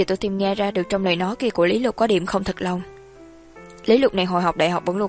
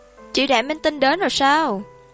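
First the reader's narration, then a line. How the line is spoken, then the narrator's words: Loud call. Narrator (Vietnamese): Lý Lục lớn tiếng gọi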